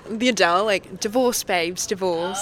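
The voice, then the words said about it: Put-on British Essex accent. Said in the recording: “your British accent? ... She got it. She got it. ... She got the Essex.”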